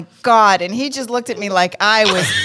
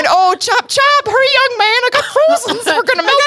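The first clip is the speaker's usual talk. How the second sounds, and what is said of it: Put-on Fargo accent. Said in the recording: “I started using a Fargo accent.”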